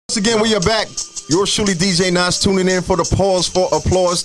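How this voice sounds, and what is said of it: Radio announcer voice. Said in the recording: “I'm getting my radio voice popping today.”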